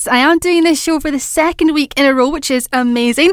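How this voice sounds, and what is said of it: Excited, upbeat voice. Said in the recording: “in my voice, because you probably can, I'm sounding maybe a little bit even more excited than normal”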